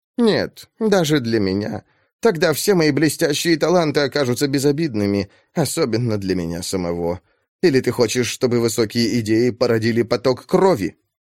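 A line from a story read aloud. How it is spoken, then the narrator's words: Sighing. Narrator (Russian): Сирен Педак вздохнула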